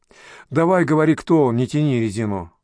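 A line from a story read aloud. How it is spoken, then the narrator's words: Grumbled. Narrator (Russian): буркнул следователь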